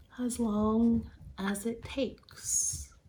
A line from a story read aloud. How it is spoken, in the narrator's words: quietly off camera and in the background, calmly responds